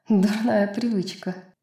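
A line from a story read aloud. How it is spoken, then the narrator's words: Soft laugh. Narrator (Russian): тихо засмеялась она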